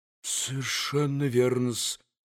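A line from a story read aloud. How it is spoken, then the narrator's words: Faltering, sly mutter. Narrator (Russian): пробормотал уже пресекавшимся голосом Смердюков, гнусно улыбаясь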